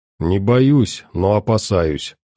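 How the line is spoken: Calm answer. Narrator (Russian): спокойно ответил

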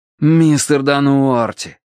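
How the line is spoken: Pleading. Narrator (Russian): взмолился я

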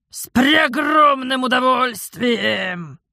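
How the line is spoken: Bear-like growl from below. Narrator (Russian): прорычал убийца из-под кровати, как медведь из заснеженной берлоги

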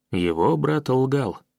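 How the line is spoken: Calm reply. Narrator (Russian): спокойно ответил я

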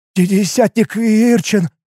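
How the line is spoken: Nervous trembling voice. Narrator (Russian): Нервно, дрожащим голосом произнес Рикел

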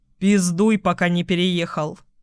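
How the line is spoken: Stern, bossy admonishment. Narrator (Russian): Строго, как начальник, урезонил его мужчина

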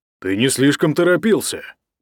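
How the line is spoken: Grumbling. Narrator (Russian): проворчал Ник

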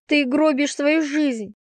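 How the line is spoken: Shout. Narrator (Russian): закричала я

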